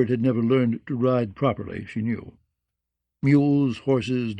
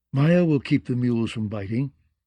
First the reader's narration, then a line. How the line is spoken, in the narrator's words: Elaine said